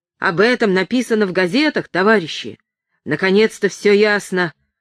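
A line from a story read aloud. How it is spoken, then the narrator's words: Shouted. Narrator (Russian): прокричал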